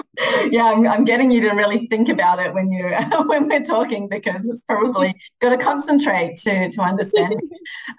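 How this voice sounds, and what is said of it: Australian accent. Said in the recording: “I love chatting with Aussies. I love getting to hear your accent.”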